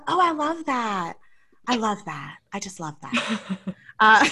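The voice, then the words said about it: Imitates another person's voice. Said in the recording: “It's a great impression.”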